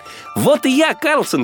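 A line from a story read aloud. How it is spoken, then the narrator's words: Child shouting. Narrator (Russian): крикнул малыш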